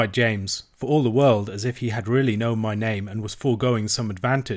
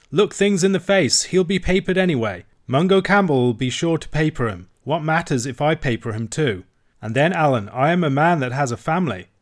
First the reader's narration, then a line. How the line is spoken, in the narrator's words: cried James